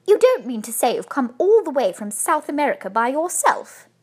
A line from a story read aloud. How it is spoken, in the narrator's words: exclaimed Mrs